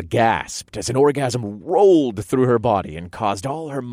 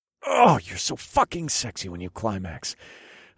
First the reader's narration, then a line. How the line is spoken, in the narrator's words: I murmured